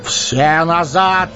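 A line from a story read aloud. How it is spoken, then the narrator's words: Shout. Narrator (Russian): крикнул Гэндальф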